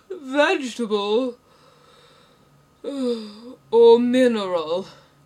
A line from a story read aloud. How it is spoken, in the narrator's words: he said, yawning at every other word